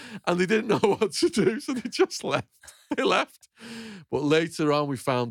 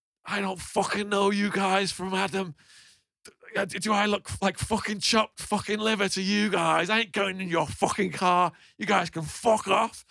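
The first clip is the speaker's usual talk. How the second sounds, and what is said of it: Liverpudlian accent. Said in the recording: “in a Liverpudlian accent”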